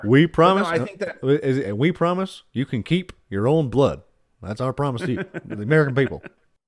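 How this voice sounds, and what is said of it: Impression of Barack Obama. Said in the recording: “that was a great imitation of Obama”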